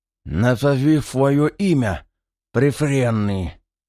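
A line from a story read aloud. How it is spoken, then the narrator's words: Hissed from below. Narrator (Russian): прошипел снизу заложник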